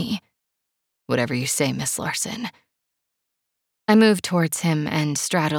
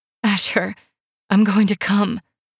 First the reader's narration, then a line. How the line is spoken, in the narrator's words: I moan